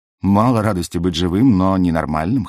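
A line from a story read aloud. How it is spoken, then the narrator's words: Wry snort. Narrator (Russian): хмыкнул я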